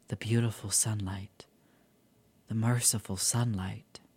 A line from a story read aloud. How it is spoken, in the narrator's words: murmured